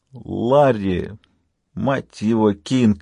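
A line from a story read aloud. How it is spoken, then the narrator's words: Groaning. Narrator (Russian): простонал доктор Майк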